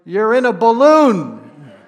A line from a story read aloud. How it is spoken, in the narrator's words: the man looked up and shouted